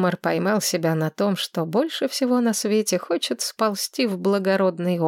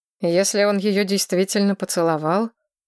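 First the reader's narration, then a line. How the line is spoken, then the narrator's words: Curt, clipped. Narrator (Russian): отрывисто произнес Глорейн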